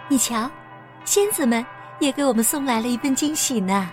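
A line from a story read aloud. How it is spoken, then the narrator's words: Smiling. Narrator (Chinese): 艾洛微笑着对他说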